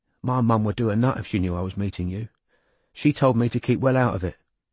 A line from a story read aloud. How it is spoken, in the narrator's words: said anxiously